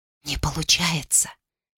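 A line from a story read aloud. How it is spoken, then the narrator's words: Whispering. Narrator (Russian): прошептала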